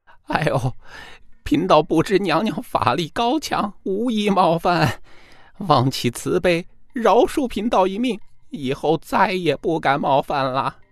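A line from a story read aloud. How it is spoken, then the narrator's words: Desperate pleading. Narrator (Chinese): 真人被打急了，无奈何哀求道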